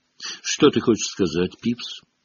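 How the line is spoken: Calm question. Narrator (Russian): спокойно спросил Дамблдор

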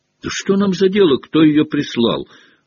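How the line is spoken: Carefree exclamation. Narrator (Russian): воскликнул беспечный Рон

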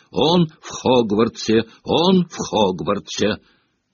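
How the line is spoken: Sleep mumbling. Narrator (Russian): Блэк постоянно бормотал во сне

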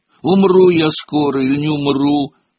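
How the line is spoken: Sudden, unexpected exclamation. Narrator (Russian): Вдруг воскликнул Гарри неожиданно даже для самого себя

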